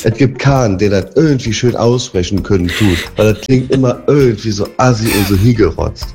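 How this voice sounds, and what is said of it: Trier regional German dialect. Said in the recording (German): “den Trierer Dialekt. Unser eigenen Dialekt ... den aus meiner eigenen Heimat ... Und dann auf einmal geht's Hochdeutsch hinten raus.”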